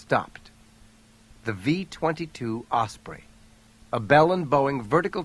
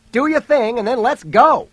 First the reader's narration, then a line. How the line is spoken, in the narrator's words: he yelled to Jody